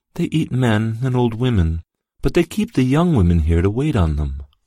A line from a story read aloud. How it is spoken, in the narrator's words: blushed and said sadly